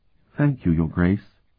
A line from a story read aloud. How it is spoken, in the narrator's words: she replied in a trembling little voice